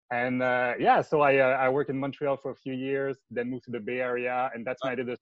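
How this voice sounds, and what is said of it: French Canadian accent. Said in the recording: “I'm from Quebec. So it's a French Canadian accent.”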